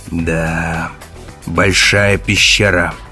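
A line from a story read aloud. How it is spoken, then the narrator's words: Mumble. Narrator (Russian): пробурчал Керк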